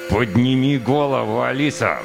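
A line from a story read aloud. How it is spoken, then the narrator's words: Demand through gritted teeth. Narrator (Russian): Сквозь зубы потребовал сержант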